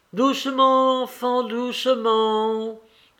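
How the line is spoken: Shouted. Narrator (French): cria Lévin

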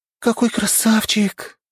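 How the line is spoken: Excited exclamation. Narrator (Russian): воскликнула Мия

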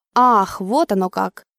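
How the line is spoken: Thoughtful drawl. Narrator (Russian): задумчиво протянул водитель

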